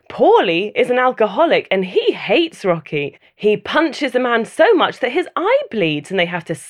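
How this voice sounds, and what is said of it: Usual voice. Nothing is said of it.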